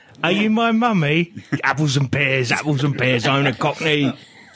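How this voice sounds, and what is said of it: Put-on Cockney accent. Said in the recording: “I wish he'd had a Cockney accent.”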